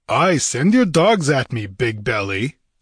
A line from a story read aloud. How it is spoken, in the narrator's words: sneered Conan with bitter scorn